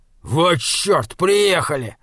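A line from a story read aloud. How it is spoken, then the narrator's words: Said angrily. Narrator (Russian): сердито сказал Лам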